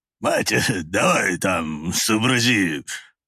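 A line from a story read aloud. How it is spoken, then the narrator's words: Low booming drone. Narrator (Russian): Прогудел он Наталье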